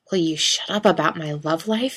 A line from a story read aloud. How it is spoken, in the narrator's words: he hisses